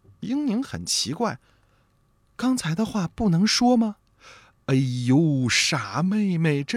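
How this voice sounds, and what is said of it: Usual voice. Nothing is said of it.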